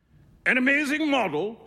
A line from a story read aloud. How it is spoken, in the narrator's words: shouted Trevor at the top of his voice